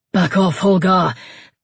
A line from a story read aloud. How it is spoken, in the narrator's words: Eivind gasped